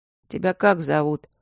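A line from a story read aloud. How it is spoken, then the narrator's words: Lazy question. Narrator (Russian): лениво спросил Мишка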